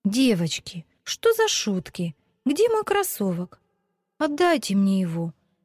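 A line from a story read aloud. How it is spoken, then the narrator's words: Tearful exclamation. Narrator (Russian): со слезами на глазах воскликнула Вика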